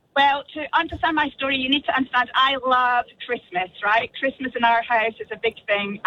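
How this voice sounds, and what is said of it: Scottish accent. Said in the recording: “your amazing Scottish accent.”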